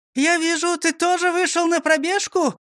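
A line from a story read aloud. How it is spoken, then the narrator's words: Joyful shout. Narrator (Russian): радостно крикнула Фрёкинсталь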